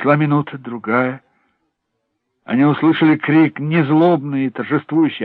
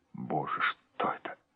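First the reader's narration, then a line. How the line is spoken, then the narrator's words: Whispered. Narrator (Russian): прошептал Хеллорен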